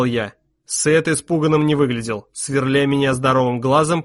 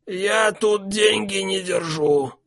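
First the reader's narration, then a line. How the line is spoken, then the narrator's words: Hoarse voice. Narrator (Russian): сказал Сет хрипло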